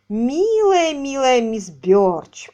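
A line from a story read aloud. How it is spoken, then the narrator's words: Drawl. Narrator (Russian): протянул он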